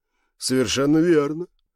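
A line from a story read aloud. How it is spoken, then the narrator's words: Weary reply. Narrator (Russian): устало ответил Габриэль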